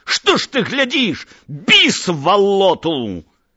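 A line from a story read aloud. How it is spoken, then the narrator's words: Interrupted shout. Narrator (Belarusian): не паспеў яшчэ крыкнуць да канца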